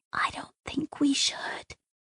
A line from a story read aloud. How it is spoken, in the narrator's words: Jane 64 whispered